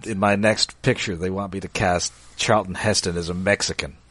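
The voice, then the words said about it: Orson Welles impression. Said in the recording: “my Orson Welles impression”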